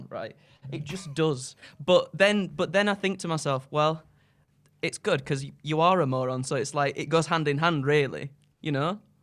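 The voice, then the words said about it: North Yorkshire English accent. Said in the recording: “That's so North Yorkshire accent.”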